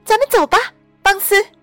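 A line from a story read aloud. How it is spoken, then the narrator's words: Sudden, loud. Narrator (Chinese): 突然，莎莎大声说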